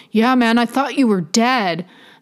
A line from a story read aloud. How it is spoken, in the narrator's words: Steve chuckled